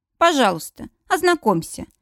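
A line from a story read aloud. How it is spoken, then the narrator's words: Irritated, curt. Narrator (Russian): раздраженно бросаю я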